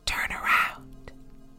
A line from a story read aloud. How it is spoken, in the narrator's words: a whisper in his headphones that said